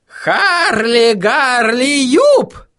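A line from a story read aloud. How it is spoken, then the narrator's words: Howling. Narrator (Russian): взвыл он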